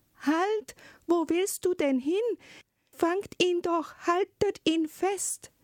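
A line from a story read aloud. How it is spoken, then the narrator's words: Sudden shout. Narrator (German): rief plötzlich die Zarin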